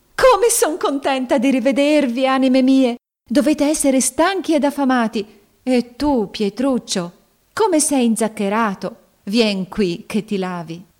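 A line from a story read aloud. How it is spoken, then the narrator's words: Joyful exclamation. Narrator (Italian): esclamò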